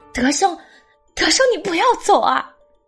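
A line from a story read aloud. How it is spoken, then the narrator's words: Anxious loud shout. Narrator (Chinese): 张英兰急得大喊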